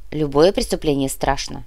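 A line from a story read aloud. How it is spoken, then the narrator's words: Calm reply. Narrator (Russian): спокойно ответил Сухоруков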